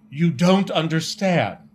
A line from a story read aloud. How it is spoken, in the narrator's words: exclaimed